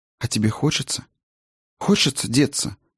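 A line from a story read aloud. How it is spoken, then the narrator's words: Sudden quiet question. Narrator (Russian): вдруг негромко спросила она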